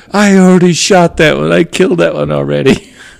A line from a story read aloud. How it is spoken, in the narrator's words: my brother yells out as loud as he could